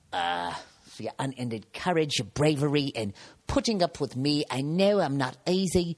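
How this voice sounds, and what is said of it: Put-on British English accent. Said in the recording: “I know I keep using an English accent, but it just always seems to be some sort of British accent”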